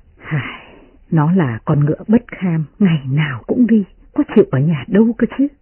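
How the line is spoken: Sighing. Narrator (Vietnamese): Tiết Phu Nhân thở dài

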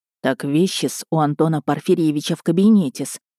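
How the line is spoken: Porter whispering. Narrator (Russian): прошептал портье

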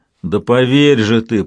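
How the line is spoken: Booming drone. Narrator (Russian): прогудел совершенный

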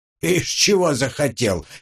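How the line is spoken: Giggling. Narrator (Russian): хихикнул Карпыч

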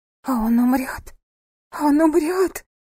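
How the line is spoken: Hoarse, hysterical. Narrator (Russian): прохрипела она, заливаясь в истерике

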